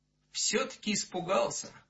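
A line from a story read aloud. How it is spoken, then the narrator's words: Guilty tone. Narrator (Russian): виноватым тоном произнес он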